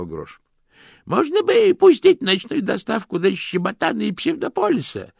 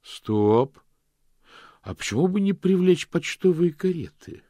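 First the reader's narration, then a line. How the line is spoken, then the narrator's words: Plain question. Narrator (Russian): спросил мокрец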